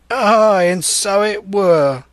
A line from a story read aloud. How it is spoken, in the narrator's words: cried Morgan